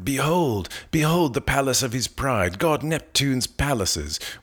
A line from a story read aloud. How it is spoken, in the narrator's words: Glaucus cried